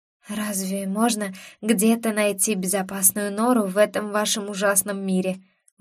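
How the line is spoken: Weary exhale. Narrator (Russian): выдохнула я устало

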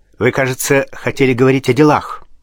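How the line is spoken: Angry question. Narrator (Russian): сердито спросил Пушкин

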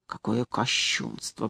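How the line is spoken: Whispered. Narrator (Russian): прошептал он

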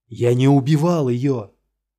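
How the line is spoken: Shout. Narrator (Russian): закричал Гирт

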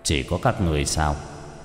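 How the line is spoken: Cold. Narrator (Vietnamese): Cha Thân Vương lạnh lùng

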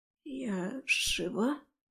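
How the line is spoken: Hoarse, dry-mouthed strain. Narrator (Russian): хрипло выдавила я, превозмогая засуху во рту

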